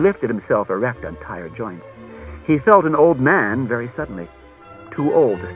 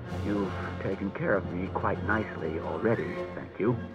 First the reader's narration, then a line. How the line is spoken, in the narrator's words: said Bailey grimly